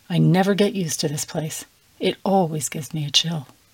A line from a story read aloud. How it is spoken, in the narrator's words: Daniel said softly